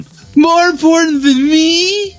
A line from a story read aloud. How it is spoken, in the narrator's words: Larry screamed at him